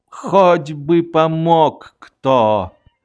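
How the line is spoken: Hopeless voice. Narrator (Russian): безнадежным голосом сказал

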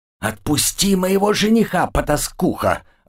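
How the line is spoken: Loud hiss. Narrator (Russian): громко шипела Лия

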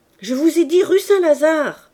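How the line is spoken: Shouting. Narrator (French): cria l'oncle

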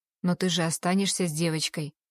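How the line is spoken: Soft question. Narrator (Russian): спрашивает мягко

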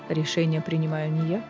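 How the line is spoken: Calm reply. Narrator (Russian): спокойно ответил Эрису Рис

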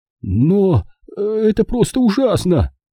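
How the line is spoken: Groaning. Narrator (Russian): простонал он

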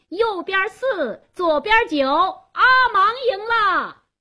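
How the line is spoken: Loud shout. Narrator (Chinese): 贾斯东做公证人，他高声喊道

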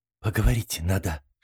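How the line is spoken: Whispered. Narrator (Russian): шепнула она подруге

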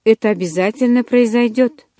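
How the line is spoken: Calm reassurance. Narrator (Russian): спокойно заверила его Элис

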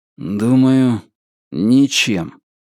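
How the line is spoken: Gloomy reply. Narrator (Russian): мрачно ответил Ричард

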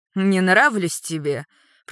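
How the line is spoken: Angry speech. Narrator (Russian): продолжает Витор зло общаться с дочерью

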